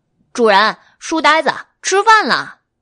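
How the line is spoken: Smiling cheerfully. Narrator (Chinese): 白姬笑眯眯的

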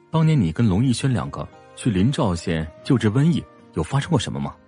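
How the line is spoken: Low-voiced question. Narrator (Chinese): 他问话的声音低低的

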